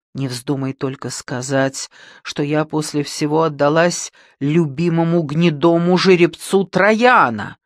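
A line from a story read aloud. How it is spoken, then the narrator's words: Tearful exclamation. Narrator (Russian): воскликнула со слезами Антония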